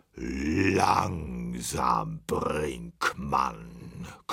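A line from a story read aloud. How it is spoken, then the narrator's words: Male growl. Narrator (German): knurrte er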